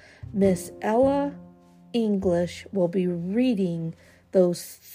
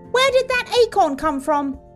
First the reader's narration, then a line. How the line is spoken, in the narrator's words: I yelped